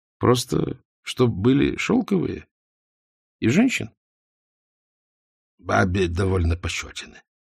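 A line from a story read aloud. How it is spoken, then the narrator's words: Timid mumble. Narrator (Russian): промямлил Черепов, словно в поисках защиты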